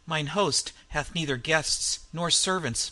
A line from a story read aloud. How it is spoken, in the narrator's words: muttered Solomon Kane